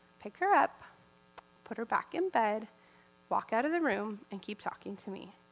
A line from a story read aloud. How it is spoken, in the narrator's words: very quietly said